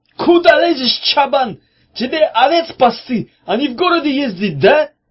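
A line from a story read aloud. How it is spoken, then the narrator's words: Aggressive, cocky shout. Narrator (Russian): прокричал Мамай, петухом налетая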